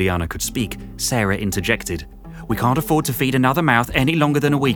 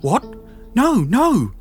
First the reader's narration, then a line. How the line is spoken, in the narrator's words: Sarah quavered, having found her voice